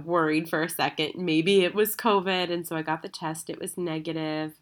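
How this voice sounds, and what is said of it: Sick, under-the-weather voice. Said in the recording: “as you can hear in my voice, I have actually been under the weather all week”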